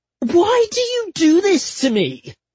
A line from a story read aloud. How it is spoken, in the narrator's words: I wailed